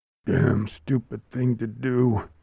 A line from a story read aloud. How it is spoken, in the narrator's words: mumbles